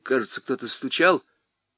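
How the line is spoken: Uncertain. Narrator (Russian): неуверенно говорил тетке

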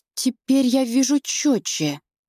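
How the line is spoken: Trembling voice. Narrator (Russian): добавляю дрожащим голосом

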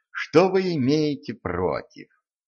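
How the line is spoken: Hopeless sigh. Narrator (Russian): Денис безнадежно вздохнул

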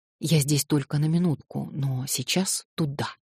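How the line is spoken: Whisper. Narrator (Russian): Алеша шепнул мне

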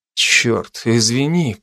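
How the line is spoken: Weak, strained mutter. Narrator (Russian): пробормотал я, сам еле поднимаясь на локтях

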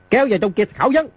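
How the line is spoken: Barked order. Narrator (Vietnamese): Di Tiểu Bảo quát

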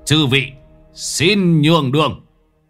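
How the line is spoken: Harsh, gritted voice. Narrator (Vietnamese): Lão Năm ngồi bên trong mà gằn giọng

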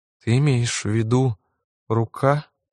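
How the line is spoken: Dejected clarifying question. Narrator (Russian): упавшим голосом уточнила Лизи

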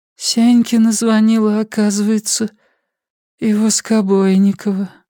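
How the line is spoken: Dejected voice. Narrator (Russian): упавшим голосом произнесла Светлана

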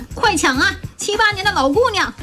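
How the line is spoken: Shout. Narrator (Chinese): 她老妈就喊

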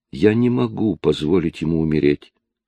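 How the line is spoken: Calmer female voice. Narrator (Russian): произнесла она более спокойно

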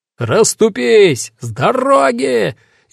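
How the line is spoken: Bellowing at full volume. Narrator (Russian): Я орал во всю глотку

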